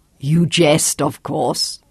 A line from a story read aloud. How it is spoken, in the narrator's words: China laughed lightly